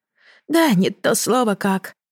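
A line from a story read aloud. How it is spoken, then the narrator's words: Sighing. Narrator (Russian): вздохнула Ермина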